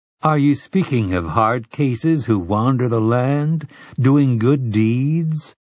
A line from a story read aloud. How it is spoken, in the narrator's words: Telford asked in a gently mocking voice